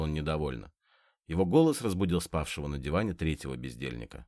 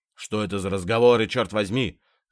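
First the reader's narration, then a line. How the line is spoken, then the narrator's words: Shouted. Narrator (Russian): закричал он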